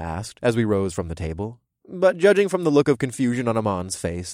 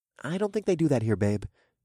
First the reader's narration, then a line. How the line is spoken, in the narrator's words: I murmured with a smile